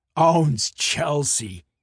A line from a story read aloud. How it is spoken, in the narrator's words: he scoffed